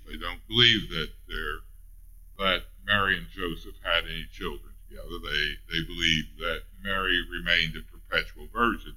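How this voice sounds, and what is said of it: Rural Missouri accent. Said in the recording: “in my Ray County accent”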